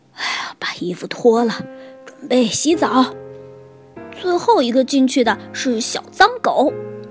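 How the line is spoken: Panting, out of breath. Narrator (Chinese): 熊爸爸…气喘吁吁地说

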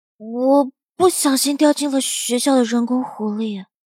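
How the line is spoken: Reluctant, quiet. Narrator (Chinese): 陆明不想提这件事，他小声说

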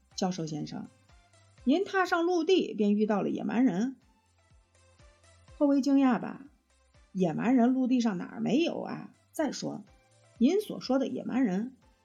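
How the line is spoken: Sarcastic. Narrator (Chinese): 尼莫厅长雨涵讽刺地说道

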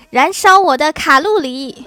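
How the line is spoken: Angry roar. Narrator (Chinese): 孙悟空愤怒地吼道

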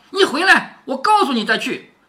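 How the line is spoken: Anxious hurried call. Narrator (Chinese): 不免又着急起来，又忙喊着说

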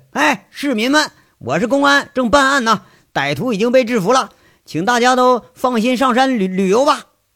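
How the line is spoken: Shouting. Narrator (Chinese): 杨伟 喊一句

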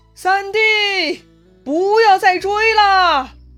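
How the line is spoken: Loud shout. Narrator (Chinese): 刘备在关上大喊

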